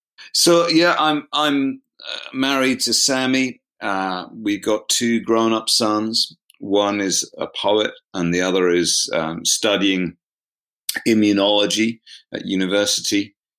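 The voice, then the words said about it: Upper-class British accent. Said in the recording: “So I went to quite privileged schools, and that would probably be reflected in my accent as well.”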